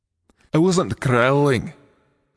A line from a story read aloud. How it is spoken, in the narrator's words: the dragon growled